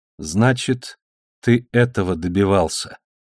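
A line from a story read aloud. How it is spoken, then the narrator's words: Slow. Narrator (Russian): медленно произнесла она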